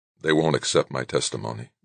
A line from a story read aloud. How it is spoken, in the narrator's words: Doug said weakly